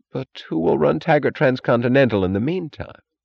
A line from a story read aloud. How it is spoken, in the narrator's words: She chuckled